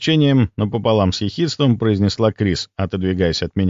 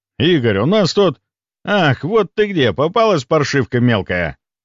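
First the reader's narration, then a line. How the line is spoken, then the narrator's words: Anguished roar. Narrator (Russian): Леонов взревел раненой белугой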